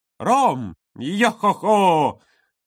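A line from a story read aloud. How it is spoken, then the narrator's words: Exclaimed. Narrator (Russian): воскликнул Юра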